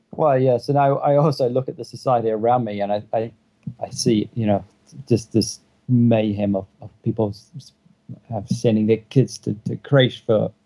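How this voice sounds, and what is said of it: Speaks with an accent. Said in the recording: “Sorry, it's by accent.”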